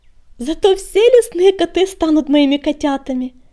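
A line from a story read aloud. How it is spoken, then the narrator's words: Cheerful purring. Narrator (Russian): весело заурчала Пепелюшка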